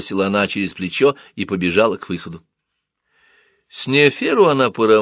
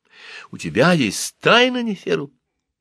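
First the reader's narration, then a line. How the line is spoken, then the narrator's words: Exclaimed. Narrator (Russian): воскликнула Хатшепсут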